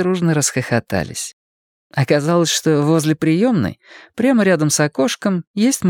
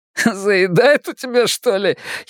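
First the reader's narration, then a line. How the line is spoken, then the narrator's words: Giggled. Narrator (Russian): хихикнул кто-то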